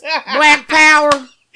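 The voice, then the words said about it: Mock redneck white-guy voice. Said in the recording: “I said it in my redneck voice... Doing my white voice. I'm doing my Trump white folk voice.”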